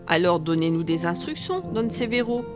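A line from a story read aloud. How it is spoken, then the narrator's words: Plain. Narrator (French): répondit El Faldon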